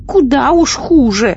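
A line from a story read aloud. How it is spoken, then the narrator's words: Witch shouting. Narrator (Russian): закричала ведунья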